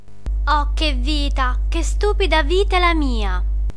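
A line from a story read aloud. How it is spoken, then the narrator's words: Whiny theatrical muttering. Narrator (Italian): borbottava fra sé con la voce da piagnisteo d'una regina da tragedia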